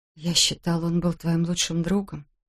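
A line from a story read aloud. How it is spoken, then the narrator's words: Whispered. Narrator (Russian): прошептала Кей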